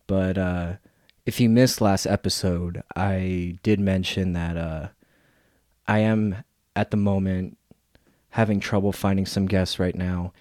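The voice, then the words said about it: Raspy voice with sore throat. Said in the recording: “pardon my voice ... I'm actually kind of coming down with a cold right now. I got like a sore throat and I kind of got a fever and a cough ... this episode might have like a raspy voice”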